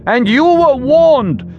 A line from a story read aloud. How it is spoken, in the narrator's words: Wren shouted defensively